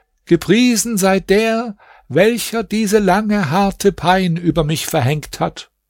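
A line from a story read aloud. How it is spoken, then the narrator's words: Continuous calling out. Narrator (German): Diese Gestalt rief in einem fort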